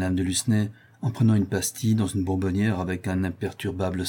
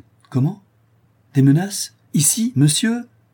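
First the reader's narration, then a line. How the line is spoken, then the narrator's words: Exclaimed. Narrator (French): s'écria Conrad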